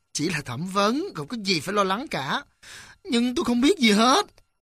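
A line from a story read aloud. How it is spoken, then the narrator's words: Smiling. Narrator (Vietnamese): Gã cảnh sát mỉm cười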